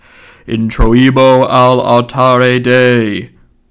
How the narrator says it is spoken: intoned

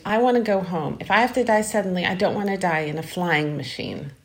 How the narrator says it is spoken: she got to her feet and exclaimed

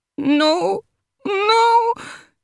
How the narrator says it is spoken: she cries

